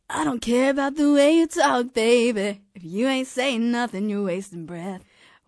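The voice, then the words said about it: Airy imitation of a pop singer. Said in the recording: “good Michael Jackson impression ... He's got like the hee hee ... It's like airy, right?”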